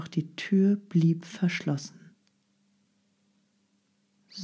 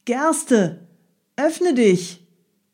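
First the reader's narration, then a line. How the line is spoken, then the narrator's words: Called out. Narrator (German): Er rief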